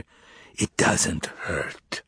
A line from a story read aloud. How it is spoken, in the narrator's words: My father must have guessed my thoughts because he whispered in my ear